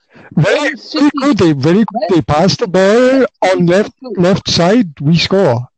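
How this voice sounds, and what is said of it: Put-on Indian accent. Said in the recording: “that was a weird Indian instead of African accent.”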